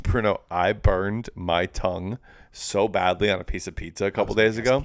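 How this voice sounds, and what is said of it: Slight lisp. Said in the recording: “I just sound like I'm talking like with a lisp”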